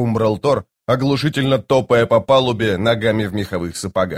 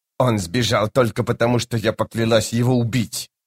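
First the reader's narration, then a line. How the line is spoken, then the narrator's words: Mutter. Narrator (Russian): пробормотала Хеттен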